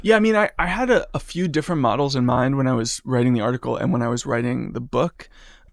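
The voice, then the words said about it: Speaks with vocal fry. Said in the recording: “how was my vocal fry? ... It's like it is now.”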